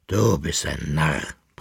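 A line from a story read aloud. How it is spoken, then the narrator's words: Grumbled. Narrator (German): brummte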